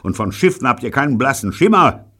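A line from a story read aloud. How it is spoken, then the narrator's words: Shout. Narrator (German): schrie er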